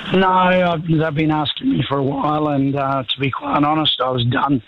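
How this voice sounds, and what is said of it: Weak, sick-sounding voice. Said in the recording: “I've just got the flu. I got the bot, so my voice isn't that good.”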